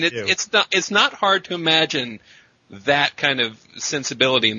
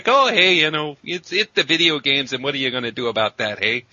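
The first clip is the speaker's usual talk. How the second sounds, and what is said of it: Put-on regional accent. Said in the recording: “I love it when you do the accent.”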